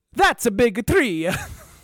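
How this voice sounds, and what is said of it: Put-on Italian accent. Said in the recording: “my impression of a progressive Italian”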